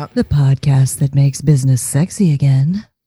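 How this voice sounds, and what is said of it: Put-on sexy deep voice. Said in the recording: “every time ... is being sexy, it just makes me laugh ... I try to be as sexy as I can with my sexy deep voice.”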